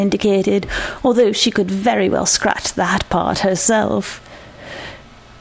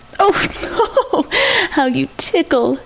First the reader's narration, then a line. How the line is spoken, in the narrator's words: she laughed